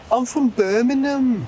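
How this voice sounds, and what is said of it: Exaggerated put-on Birmingham accent. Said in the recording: “the Birmingham accent ... an embellished British accent ... So Brummy's like ... You have to do like the crying face.”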